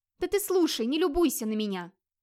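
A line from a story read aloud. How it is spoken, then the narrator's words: Friendly annoyed shout. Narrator (Russian): С дружеской досадой прикрикнула она на Вигмара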